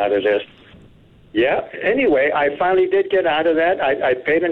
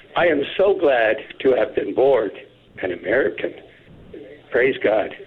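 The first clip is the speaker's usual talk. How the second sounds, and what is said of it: Emotional, teary voice. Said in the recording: “I'm getting teary-eyed now”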